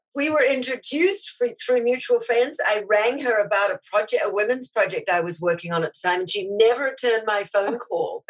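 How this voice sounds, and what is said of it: Speaker with a foreign accent. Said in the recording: “the one with the funny accent ... I love the accent”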